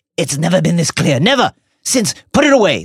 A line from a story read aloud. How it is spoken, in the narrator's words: snarled Snape